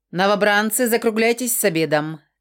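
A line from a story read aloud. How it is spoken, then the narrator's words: Barked command. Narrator (Russian): Командным тоном гаркнул декурион Крор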